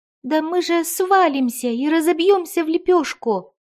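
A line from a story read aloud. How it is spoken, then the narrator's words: Terrified squeak. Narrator (Russian): пискнул он в ужасе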